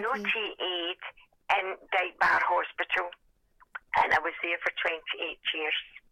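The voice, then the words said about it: Hoarse voice. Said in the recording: “I've got a hoarse voice.”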